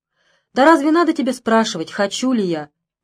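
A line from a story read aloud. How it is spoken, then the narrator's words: Exclaiming. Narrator (Russian): воскликнула она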